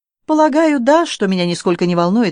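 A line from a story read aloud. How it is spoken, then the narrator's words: Calm. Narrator (Russian): ответил Алексей спокойно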